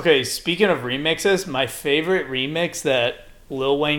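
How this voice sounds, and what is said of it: Usual voice. Nothing is said of it.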